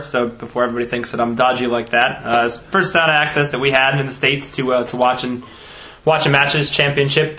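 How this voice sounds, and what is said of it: American accent, not a Wigan one. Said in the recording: “come all the way from the States ... That's not a Wigan accent either, is it? ... not in the least”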